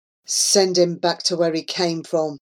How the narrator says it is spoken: one of them muttered

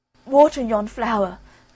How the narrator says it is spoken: cried the boy in despair

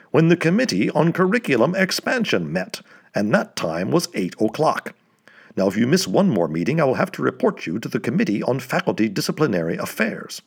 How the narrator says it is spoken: barked Slopes

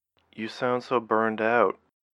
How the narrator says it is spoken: Rachel answered quietly

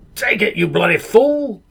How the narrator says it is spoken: Captain Greytuff barked from the land of the dead

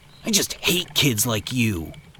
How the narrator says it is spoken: Joe spat

